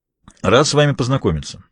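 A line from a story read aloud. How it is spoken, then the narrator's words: Plain. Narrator (Russian): сказал американец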